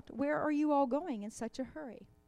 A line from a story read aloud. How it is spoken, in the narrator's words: Goosey Lucy, who called out